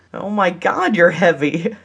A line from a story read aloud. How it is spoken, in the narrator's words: said, starting to laugh